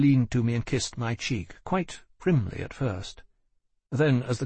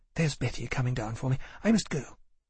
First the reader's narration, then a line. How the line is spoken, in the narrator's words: she said quickly